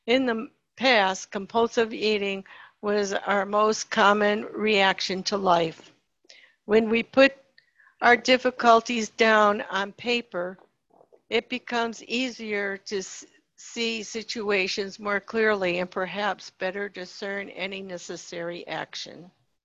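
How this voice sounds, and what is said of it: Strained, failing voice. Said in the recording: “I'm losing my voice, so I don't know how long I can go.”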